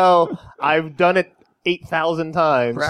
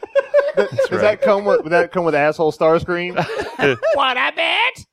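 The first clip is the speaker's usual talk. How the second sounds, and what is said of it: Imitates a cartoon robot character. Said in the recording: “That wasn't a bad impersonation.”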